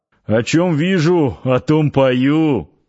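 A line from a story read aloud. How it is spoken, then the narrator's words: Chuckling. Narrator (Russian): хохотнул Парсыкин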